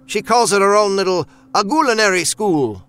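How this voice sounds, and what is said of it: Put-on Italian accent. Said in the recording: “Billy's voice took on his grandma's Italian accent.”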